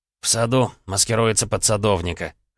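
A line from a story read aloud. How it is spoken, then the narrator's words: Smirking snort. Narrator (Russian): хмыкнул Женя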